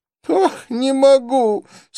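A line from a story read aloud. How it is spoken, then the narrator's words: Moaning. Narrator (Russian): стонал Реми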